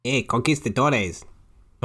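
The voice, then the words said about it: Put-on Spanish accent. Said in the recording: “That's the best you're going to get from me, from a Spanish accent.”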